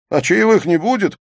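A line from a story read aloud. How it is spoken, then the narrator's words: Laughing shout. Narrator (Russian): со смехом прокричал Мехмед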